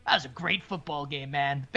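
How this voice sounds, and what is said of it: Bad Jon Gruden impression. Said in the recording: “Let me do my best, John Gruden. ... Bad John Gruden impersonation.”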